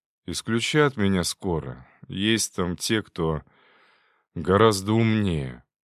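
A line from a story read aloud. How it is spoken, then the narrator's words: Spat out angrily. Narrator (Russian): злобно выплюнул слова Шуклин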